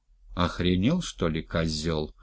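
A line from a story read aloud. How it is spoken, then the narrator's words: Muttering. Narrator (Russian): пробормотал Лёлик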